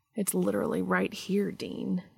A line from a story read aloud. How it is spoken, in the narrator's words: he scolded lightly